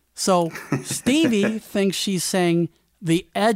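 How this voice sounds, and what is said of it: Usual voice. Nothing is said of it.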